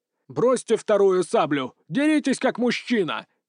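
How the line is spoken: Shouted in passable Russian. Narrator (Russian): крикнул он мне на сносном русском

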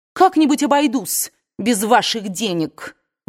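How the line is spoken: Shouted. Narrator (Russian): выкрикнула

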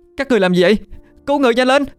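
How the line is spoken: Anxious loud shout. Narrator (Vietnamese): Tôi lo lắng mà hét lớn

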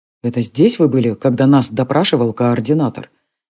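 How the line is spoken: Quiet question. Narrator (Russian): негромко спросил Джари

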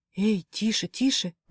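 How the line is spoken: Incoherent whisper. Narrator (Russian): несвязно зашептала

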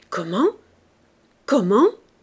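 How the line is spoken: Mother stammering. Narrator (French): bégaya la mère

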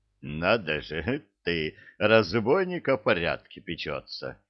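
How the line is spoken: Laughing. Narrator (Russian): засмеялся капитан

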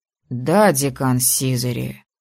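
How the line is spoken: Grumbling. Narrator (Russian): Буркнул

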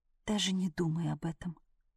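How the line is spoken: Quiet and firm. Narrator (Russian): тихо и твердо выговорила девушка

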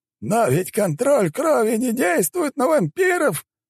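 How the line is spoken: Exclaim. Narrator (Russian): воскликнул шаман

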